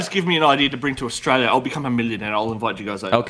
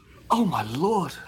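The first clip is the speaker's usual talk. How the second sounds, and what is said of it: High-pitched exclamation. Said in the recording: “how high pitched my voice went”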